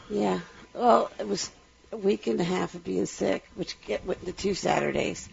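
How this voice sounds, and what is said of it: Voice still sounding sick. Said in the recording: “You'll hear the leftovers in my voice.”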